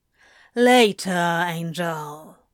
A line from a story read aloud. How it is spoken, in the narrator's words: Crowley drawled over his shoulder